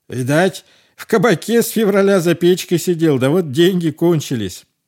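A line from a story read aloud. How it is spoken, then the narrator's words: Shouted. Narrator (Russian): Другой крикнул мужичку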